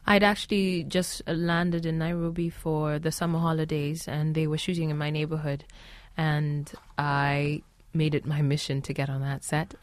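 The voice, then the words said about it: Mixed international accent, not American. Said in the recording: “my accent is like a paella of all my experiences ... I'm not speaking an American accent now. It's just a conglomeration of all my experiences”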